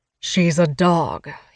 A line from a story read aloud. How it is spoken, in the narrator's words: he says flatly